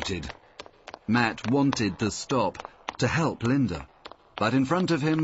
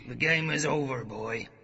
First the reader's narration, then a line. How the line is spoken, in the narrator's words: growled the man on the stairs